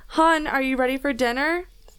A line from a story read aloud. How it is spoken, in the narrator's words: I yelled